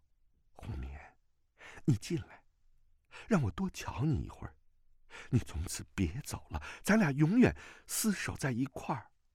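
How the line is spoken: Soft, tender. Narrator (Chinese): 段正淳柔声道

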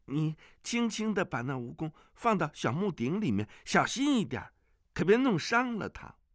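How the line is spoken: Calling out. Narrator (Chinese): 阿紫叫道

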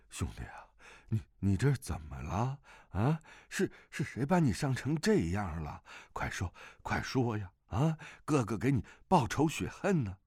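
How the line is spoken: Exhausted, panting. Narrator (Chinese): 那胖子 呼呼喘气，神情委顿不堪，说道

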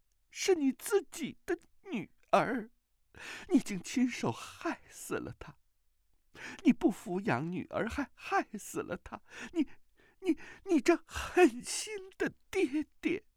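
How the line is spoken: Woman crying accusingly. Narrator (Chinese): 那美妇人哭道

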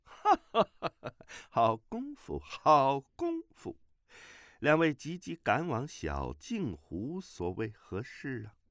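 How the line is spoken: Laughter with hidden alarm. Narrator (Chinese): 这个人笑声之中带有惊惶之意

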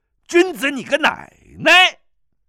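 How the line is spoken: Angry shout. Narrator (Chinese): 司空玄怒喝

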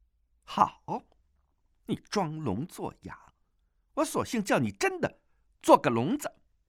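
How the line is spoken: Angry. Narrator (Chinese): 那女郎见他如此倔强，怒道

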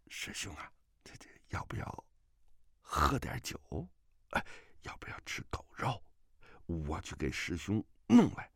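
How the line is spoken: Low voice. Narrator (Chinese): 元根低声地说

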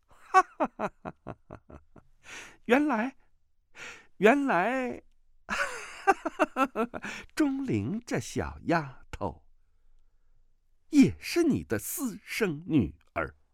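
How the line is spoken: Hearty laughter. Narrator (Chinese): 刀白凤……忍不住是哈哈大笑啊，说道

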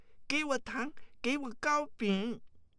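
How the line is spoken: Clamoring shout. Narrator (Chinese): 一面乱叫，有的则叫道

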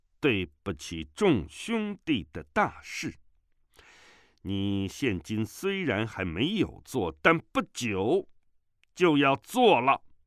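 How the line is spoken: Loud. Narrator (Chinese): 权冠卿 大声道

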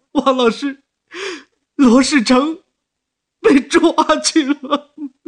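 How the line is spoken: Crying. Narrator (Chinese): 那个人便哭出声来了

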